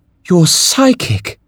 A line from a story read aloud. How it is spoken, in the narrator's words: Draxel sighed